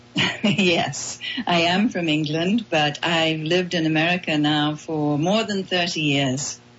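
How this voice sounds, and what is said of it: English accent. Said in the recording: “I detect an English accent.”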